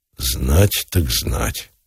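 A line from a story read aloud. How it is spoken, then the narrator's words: Answered while flushing. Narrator (Russian): ответил неизвестно почему багровее Самсонов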